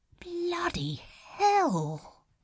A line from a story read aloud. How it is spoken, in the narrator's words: whispered Crowley